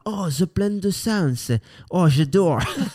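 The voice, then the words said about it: Mock American voice, southwestern French accent. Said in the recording (French): “c'est des Américains qui ont quand même l'accent du sud-ouest”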